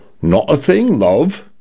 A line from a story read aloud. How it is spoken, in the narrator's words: her condo said in a male British voice that leaned toward a Cockney accent